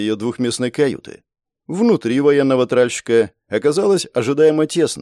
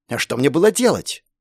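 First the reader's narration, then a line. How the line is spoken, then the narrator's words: Snapping back. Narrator (Russian): попыталась огрызнуться Настя в ответ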